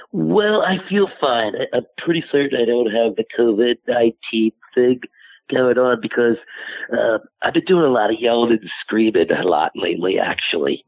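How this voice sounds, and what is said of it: Hoarse, sore-throated voice. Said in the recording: “I have a little bit of a sore throat, so I'm about speaking so well.”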